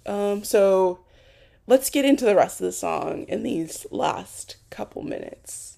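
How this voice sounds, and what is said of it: Hoarse, failing voice. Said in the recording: “Ooh, and my voice... I'm literally losing my voice. I don't know how, but I'm literally losing my voice”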